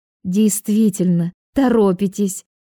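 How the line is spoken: Joyful confirmation. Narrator (Russian): радостно глядя на профессора, и подтвердила

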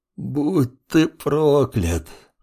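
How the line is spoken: Hopeless groan. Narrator (Russian): От безысходности простонал Сид

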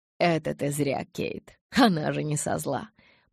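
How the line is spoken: Muttered through teeth. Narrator (Russian): Процедил себе под нос Эдвард

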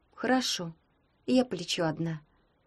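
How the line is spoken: Sad. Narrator (Russian): грустно сказала Таня

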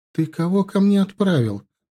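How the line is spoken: Indignant question. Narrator (Russian): возмущенно спросила она

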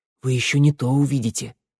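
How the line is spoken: Whispered. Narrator (Russian): шепнула Санда

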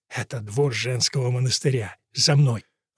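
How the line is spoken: Whisper. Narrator (Russian): Фернхилл прошептал

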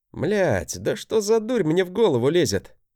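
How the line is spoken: Pronounced declaration. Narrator (Russian): Изрек

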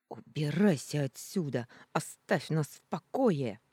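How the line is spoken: Through gritted teeth, mother. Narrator (Russian): процедила мать

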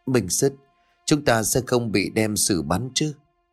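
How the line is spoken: Trembling voice. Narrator (Vietnamese): Thằng Mão run rẩy run giọng

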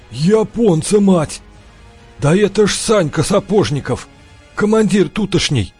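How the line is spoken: Hoarse, astonished. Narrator (Russian): Выпучив глаза, прохрипел Жердев

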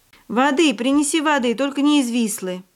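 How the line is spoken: Shout from the floor. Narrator (Russian): Бартек с пола крикнул

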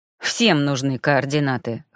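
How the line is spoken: Prisoner's snort. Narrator (Russian): хмыкнул пленник

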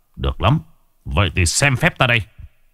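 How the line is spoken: Harsh, stern voice. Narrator (Vietnamese): Mai Kế Phục gằn giọng

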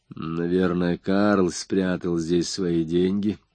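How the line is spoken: Mumbling. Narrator (Russian): пробормотал он

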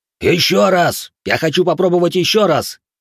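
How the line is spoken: Furious orc shout. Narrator (Russian): крикнул в бешенстве орк

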